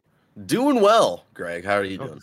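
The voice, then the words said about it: Smooth radio announcer voice. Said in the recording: “That was a good radio voice.”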